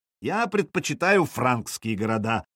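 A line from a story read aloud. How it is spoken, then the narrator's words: Plain. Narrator (Russian): сказал Хрольф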